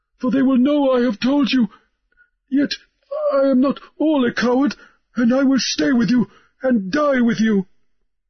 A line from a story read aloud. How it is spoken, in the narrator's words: Harelip spluttered